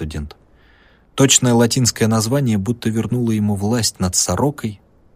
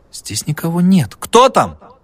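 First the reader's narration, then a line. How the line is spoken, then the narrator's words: Shout. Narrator (Russian): крикнул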